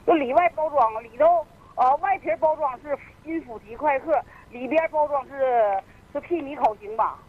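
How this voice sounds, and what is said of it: Regional northeastern Chinese accent. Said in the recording (Chinese): “这您这个外地口音”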